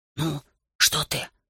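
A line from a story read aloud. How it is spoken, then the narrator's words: Irritated whisper outside window. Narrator (Russian): раздраженно прошептал за окном Грикис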